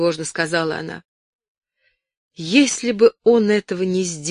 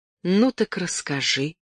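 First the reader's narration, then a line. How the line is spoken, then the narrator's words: Gentle. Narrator (Russian): сказал он нежно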